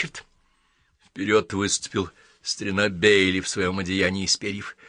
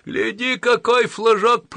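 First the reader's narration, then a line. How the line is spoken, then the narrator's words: Shouting. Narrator (Russian): прокричал он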